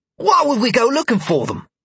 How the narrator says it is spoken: Rit exclaimed

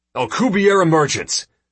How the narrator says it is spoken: Aurangzeb suddenly barked

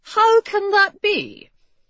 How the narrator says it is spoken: She laughed

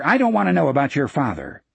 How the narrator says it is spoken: Henry said sharply

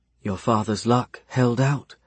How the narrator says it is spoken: Arya whispered

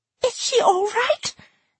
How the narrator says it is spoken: she cried, panic on her face

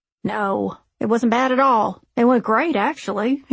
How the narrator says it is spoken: he said, his voice notably chipper

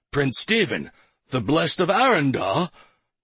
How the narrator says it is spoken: He asked in a husky voice

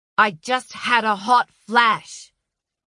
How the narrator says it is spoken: she snapped

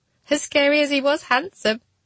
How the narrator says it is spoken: said one of the gigglers

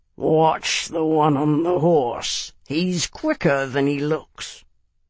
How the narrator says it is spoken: The Kane tilted his head casually to one side and growled

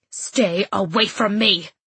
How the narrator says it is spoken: he snarled under his breath

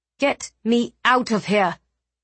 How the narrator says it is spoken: Eliana said through her teeth

